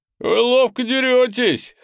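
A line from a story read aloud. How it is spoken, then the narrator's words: Two voices chuckling. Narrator (Russian): хохотнул вышибала вместе с кладовщицей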